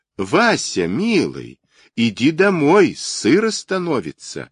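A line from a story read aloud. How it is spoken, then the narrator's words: Loud. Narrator (Russian): громко сказала сестра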